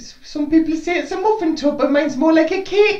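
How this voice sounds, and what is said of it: Sarah Millican impression. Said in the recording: “That was a good Sarah Millican impression.”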